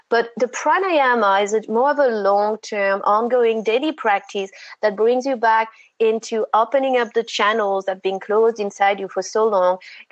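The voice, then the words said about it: French accent. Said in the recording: “it's a French accent.”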